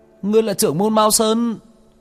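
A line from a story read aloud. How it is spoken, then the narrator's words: Howling demon. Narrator (Vietnamese): Con quỷ trong tay cũng gào thét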